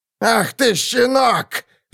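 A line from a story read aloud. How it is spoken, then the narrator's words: Shouted while struggling. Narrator (Russian): закричал Ульфрам, вырываясь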